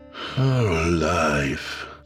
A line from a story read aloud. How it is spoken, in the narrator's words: Fant sighed wearily, though his cruel smile remained